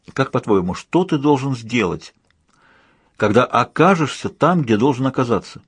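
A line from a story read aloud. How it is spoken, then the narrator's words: Plain question. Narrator (Russian): спросила Сьюзен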